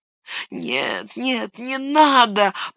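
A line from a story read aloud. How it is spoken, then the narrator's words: Moan. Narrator (Russian): простонал Смеагорл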